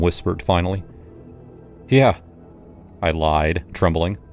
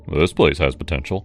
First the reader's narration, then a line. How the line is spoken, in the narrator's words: he grunted